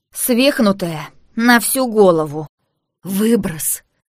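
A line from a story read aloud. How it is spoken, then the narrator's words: Hoarse strained wheeze. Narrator (Russian): Горло свело так, что я могла только сипеть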